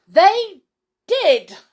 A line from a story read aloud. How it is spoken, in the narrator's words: shouted everybody